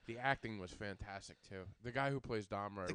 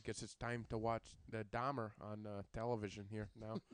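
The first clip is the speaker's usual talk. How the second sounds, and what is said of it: Put-on low-key monotone Midwestern accent. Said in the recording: “that Dahmer Midwestern accent ... That Midwestern, like, just low-key monotone.”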